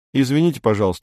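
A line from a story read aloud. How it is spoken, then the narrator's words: Plain. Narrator (Russian): говорит Эдик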